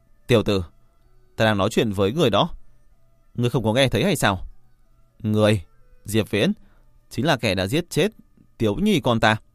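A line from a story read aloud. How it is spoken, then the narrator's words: Angry. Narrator (Vietnamese): Hàn Đồng Quân lại tức giận nói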